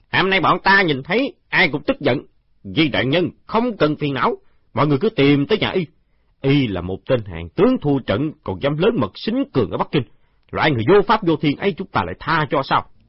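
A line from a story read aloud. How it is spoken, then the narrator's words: Growing anger. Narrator (Vietnamese): Đám thị vệ càng nói càng tức giận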